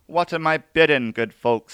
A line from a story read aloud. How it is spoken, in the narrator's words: cried